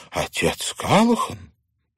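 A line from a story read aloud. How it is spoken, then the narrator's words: Surprised exclamation. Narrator (Russian): мисс Куган удивленно воскликнула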